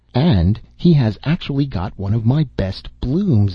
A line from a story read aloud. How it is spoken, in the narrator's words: exclaimed the white rose tree